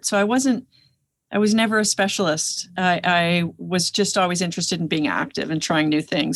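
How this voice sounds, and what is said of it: Slight Canadian accent. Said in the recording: “I heard the accent a little bit ... she must be from Canada”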